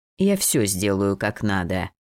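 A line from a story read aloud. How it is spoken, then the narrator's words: Slightly irritated interruption. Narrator (Russian): слегка раздраженно перебил его маг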